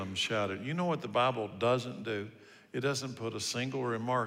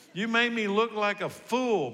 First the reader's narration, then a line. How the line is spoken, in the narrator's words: Balaam shouted